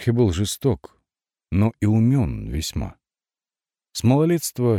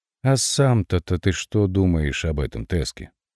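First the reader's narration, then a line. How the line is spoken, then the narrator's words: Mocking singsong, then serious. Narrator (Russian): Издевательски пропел Хорхе, спросил вдруг спокойно и серьезно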